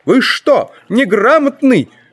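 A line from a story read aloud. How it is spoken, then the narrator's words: Sharp scolding. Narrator (Russian): прикрикнул на него лифтер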